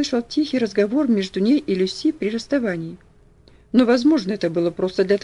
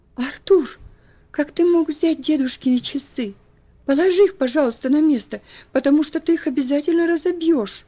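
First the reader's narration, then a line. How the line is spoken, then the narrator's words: Pleading. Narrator (Russian): взмолилась она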